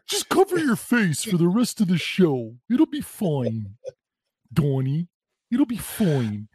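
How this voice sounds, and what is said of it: Imitates another person's voice. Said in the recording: “That is a spot on impersonation, I must say.”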